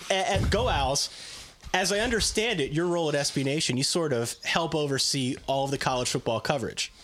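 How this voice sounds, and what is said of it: Hoarse, worn-out voice. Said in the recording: “that's why I'm tired, that's why my voice is shot”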